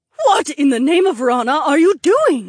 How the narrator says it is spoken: Helmy shrieked as Phineas scooped her up in his arms

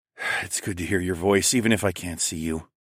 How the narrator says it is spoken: breathed out

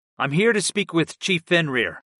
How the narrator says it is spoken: I replied in my most confident tone, and despite the blade at my throat

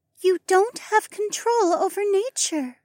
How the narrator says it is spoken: she replied in a calm voice

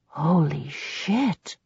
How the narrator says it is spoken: he breathed

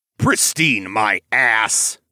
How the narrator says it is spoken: Anton growled

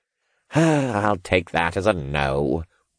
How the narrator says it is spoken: the cultist sighed

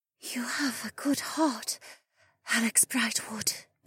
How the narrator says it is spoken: Amaya murmured before she collapsed backward

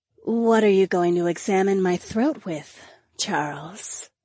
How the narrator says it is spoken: woman purred

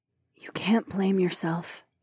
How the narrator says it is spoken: Lyca said softly

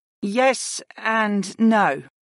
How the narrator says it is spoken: the Ice Mage replied slowly

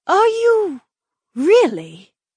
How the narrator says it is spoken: Edeny breathed

